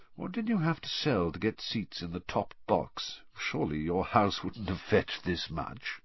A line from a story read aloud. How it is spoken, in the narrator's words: he said softly